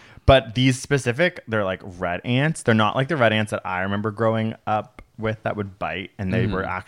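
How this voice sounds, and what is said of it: Usual voice. Nothing is said of it.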